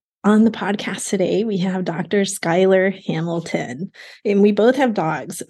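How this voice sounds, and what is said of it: Voice sounds a little funny, unwell. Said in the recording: “my voice sounds a little funny because I'm still recovering from COVID. I'm on like day 5 here. So you may hear that in my voice.”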